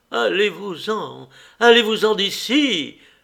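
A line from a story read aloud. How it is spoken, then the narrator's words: Sharper shout. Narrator (French): cria-t-elle encore plus vivement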